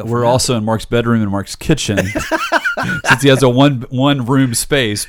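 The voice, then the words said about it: Booming stentorian radio voice. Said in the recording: “that new Stentorian radio voice”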